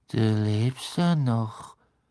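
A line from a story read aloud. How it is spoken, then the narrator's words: Flat toneless voice. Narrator (German): sagte sie mit tonloser Stimme zu Harry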